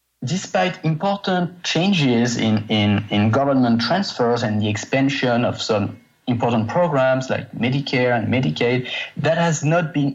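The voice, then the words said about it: Heavy French accent. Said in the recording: “very heavy French accent, so be prepared for that. I believe it's French.”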